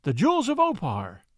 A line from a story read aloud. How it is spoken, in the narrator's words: he cried